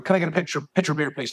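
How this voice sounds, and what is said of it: Exaggerated Irish brogue. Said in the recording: “I'd probably put a bit of a brogue on”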